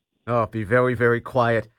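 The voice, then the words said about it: Elmer Fudd impression. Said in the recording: “your best Elmer Fudd impersonation.”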